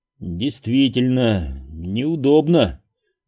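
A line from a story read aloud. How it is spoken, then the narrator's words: Sigh. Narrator (Russian): вздохнул я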